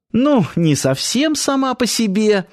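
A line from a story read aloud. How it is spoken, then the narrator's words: Laughing girl. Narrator (Russian): рассмеялась девушка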